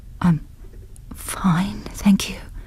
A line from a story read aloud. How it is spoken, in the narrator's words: whispered